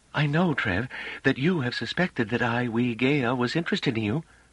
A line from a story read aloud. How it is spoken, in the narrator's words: said calmly